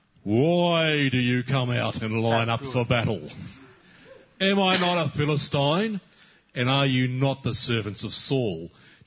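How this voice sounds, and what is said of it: Goliath character voice. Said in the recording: “put on your best Goliath voice, ... Like, really Goliath voice.”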